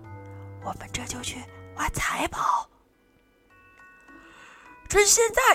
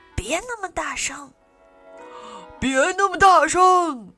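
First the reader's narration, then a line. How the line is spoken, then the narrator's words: Pirates shouting. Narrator (Chinese): 海盗们大叫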